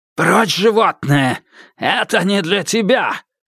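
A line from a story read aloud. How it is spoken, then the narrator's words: Shout. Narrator (Russian): крикнул, снова обретя дар речи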